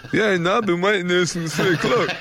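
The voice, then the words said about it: Imitates another person's voice. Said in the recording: “I've Harry Kane there going... Is that a good impression or not?”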